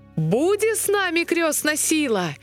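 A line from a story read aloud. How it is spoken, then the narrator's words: Shout. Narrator (Russian): закричал тогда Гаврила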